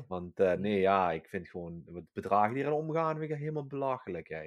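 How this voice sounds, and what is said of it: Exaggerated Limburg Dutch accent. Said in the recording (Dutch): “Ben je bewust nog Limburgers aan praten dan normaal? ... Ja, ik ben er nog Limburgers aan praten dan normaal. Hey, met een beetje accent erachteraan.”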